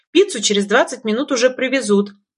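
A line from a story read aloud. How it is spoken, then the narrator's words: Pleased, self-satisfied exclamation. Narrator (Russian): воскликнула я, довольная собой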